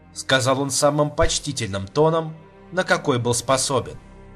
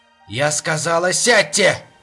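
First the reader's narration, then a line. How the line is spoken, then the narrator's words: Snarling. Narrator (Russian): рыкнула Сарт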